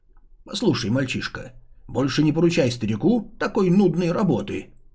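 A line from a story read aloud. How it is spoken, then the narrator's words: Displeased grumble. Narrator (Russian): недовольно пробурчал Ейянь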